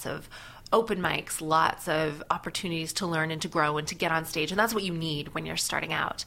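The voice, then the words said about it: Hybrid Canadian and British accent. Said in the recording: “you do have a hybrid accent ... there's definitely Canadian. I'm not hearing the oot and a boot ... I am hearing a little bit of some ... British”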